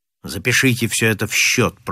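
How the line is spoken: Grumbling. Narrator (Russian): пробурчал незнакомец

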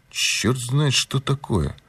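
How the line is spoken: Grumbled. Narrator (Russian): буркнул Пинкертон

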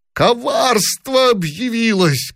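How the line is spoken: Shouting. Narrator (Russian): кричал он

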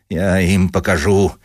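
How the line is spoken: Grumbling. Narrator (Russian): ворчал Дубинин

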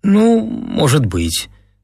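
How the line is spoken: Uncertain. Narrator (Russian): сказала неуверенно

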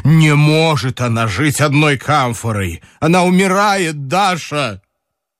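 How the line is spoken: Irritated theatrical exclamation. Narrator (Russian): Николай Иванович раздраженно и тем же точно театральным голосом воскликнул

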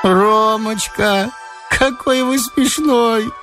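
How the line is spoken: Sing-song childlike voice. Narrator (Russian): пропела она тоненьким детским голоском

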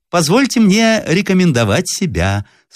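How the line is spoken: Thin high voice. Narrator (Russian): сказал тоненьким голосом сухощавый и длинный мужчина

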